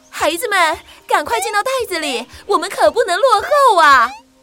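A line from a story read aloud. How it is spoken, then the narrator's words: Urgent shout, mother. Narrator (Chinese): 袋鼠妈妈急着大喊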